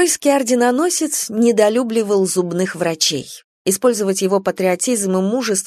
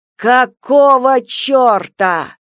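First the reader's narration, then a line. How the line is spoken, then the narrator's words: Husband yelling. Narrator (Russian): заорал муж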